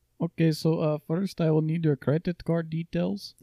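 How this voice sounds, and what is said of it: Put-on Indian accent. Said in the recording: “Give me an Indian accent ... if you're not going to do the accent”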